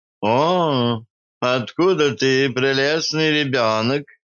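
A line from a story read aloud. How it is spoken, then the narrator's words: Low cooing voice. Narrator (Russian): Низким голосом проворковала Альма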